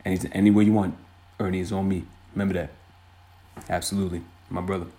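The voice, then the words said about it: Rough Shaquille O'Neal impression. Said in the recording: “Shaq, my man ... the artist formerly known as Shaq, a.k.a. my terrible impersonation that is a work in progress”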